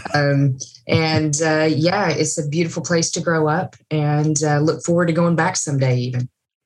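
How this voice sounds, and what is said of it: East Tennessee Southern accent. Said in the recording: “I am from East Tennessee, so I'm in the foothills of the Smoky Mountains. Um, that's the accent.”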